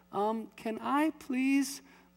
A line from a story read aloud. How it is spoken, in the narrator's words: a little silhouette in the slightest whimper said